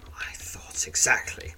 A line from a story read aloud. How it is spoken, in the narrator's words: whispers Quith, who has apparently noted the look of disdain on your face